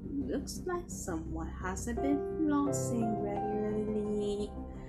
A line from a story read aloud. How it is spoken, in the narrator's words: Laughing Jack cackled under his breath